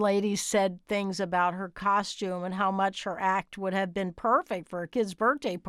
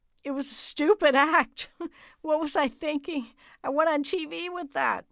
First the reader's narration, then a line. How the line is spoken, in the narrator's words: Through her broken voice, in the midst of the laughter, she attempted to say